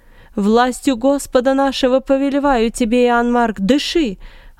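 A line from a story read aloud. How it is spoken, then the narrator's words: Yelling. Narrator (Russian): орал Варнава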